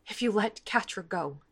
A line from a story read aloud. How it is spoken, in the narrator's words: she whispers, voice shaking